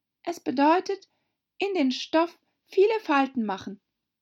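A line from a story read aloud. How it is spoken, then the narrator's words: Hesitant. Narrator (German): sagte Alice zögernd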